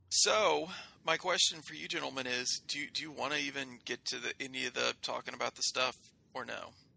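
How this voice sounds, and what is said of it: Strained voice going out. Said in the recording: “My voice is oddly enough going out. Probably because I've been talking for 45 minutes solid.”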